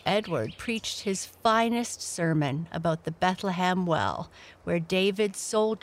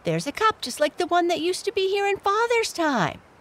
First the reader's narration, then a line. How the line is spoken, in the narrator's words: exclaimed Felix